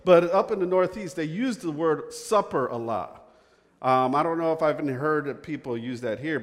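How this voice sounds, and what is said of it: Northeastern US accent. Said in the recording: “I'm from the Northeast. I don't know if you could pick that up from my accent, can you?”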